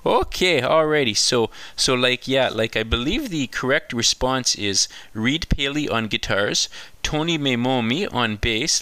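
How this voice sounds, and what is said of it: Parodied exaggerated Canadian comedy accent. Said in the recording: “That, of course, was a bit of a parody of the Canadian classic comedy show SCTV”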